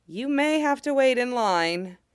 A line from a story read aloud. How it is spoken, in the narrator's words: the Jeti said with a nervous laugh